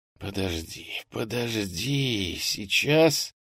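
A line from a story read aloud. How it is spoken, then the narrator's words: Whisper. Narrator (Russian): прошептал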